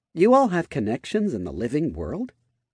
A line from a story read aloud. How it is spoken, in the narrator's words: A deep chuckle sounded in the depths of her mind